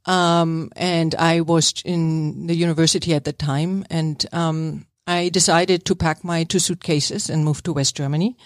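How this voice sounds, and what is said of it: Slight German accent. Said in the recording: “as you can hear, I'm having a little accent... Not as strong as Arnold Schwarzenegger... I'm from East Germany.”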